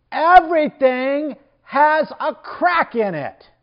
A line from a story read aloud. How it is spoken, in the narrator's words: Gunta shouted at the top of his lungs